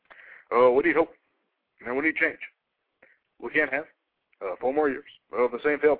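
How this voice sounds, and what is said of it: Barack Obama impression. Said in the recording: “I can do a better impersonation of this guy than they do on there ... Is this not a good Obama?”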